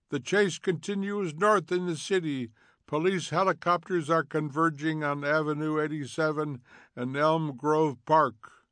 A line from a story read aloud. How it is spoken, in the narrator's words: A voice cried